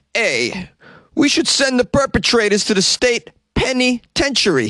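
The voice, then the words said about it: Put-on New Jersey accent. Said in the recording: “which I will read in my best Jersey accent that I could do”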